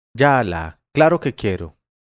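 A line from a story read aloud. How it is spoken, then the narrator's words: Exclaimed. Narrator (Spanish): exclamé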